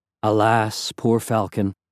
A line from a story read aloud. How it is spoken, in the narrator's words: said mournfully